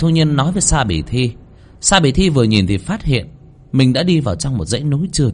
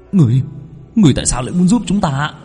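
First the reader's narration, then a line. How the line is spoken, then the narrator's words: Astonished stammer. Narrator (Vietnamese): Sa Bỉ Thi kinh ngạc, lắp bắp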